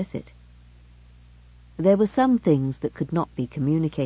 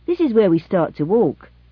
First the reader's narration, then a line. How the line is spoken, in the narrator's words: said cheerfully